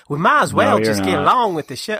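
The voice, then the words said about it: Poor Lindsey Graham accent impression. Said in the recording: “that's what Graham wants ... I'm not doing the accent right ... I'm doing it terrible”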